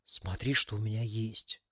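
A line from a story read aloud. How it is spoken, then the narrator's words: Conspiratorial whisper. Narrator (Russian): заговорчески прошептал Максим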